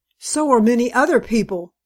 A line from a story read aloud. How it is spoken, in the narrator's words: snapped Miss Greeby, who had lost heavily at bridge on the previous night and spoke feelingly